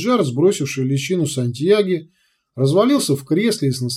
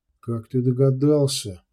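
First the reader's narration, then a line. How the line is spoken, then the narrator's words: Quiet question. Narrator (Russian): тихо спросил Урбек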